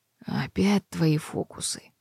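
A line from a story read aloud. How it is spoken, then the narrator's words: Hoarse question. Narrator (Russian): хрипло осведомилась она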